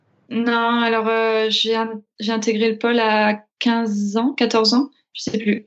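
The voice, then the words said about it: Slight regional French accent. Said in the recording (French): “on entend bien le petit accent. ... de quelle région tu étais. ... Aix-en-Provence”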